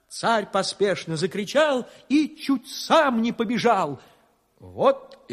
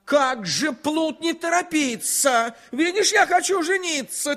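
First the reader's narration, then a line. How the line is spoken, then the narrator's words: Angry shout. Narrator (Russian): Царь со гневом закричал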